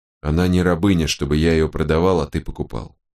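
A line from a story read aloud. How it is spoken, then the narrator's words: Calmly said, wolfhound. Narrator (Russian): спокойно сказал волкодав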